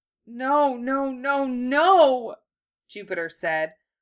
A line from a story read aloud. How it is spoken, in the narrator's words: the words slurring together into one long wail